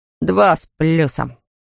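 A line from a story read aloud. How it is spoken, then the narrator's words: Muttering. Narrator (Russian): бормотал он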